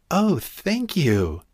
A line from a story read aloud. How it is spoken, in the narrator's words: gasped the girl, wiping away her tears